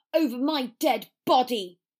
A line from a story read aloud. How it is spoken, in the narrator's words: Potter spat